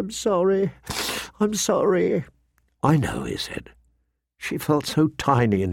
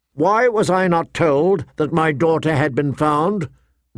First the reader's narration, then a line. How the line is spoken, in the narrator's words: Ned demanded, his voice ringing